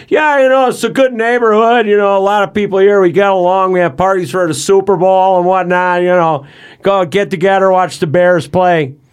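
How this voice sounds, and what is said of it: Chicago accent impression. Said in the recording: “That's a good Chicago accent, though. ... Jerry's a little more he's a little more guttural, but no, that's too New York.”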